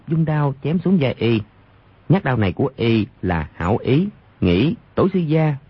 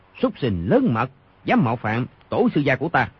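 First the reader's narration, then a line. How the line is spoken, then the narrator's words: Shouting. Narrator (Vietnamese): quát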